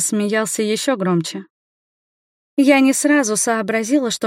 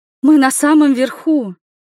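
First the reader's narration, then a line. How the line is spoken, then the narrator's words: Frightened exclamation. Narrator (Russian): воскликнула испуганно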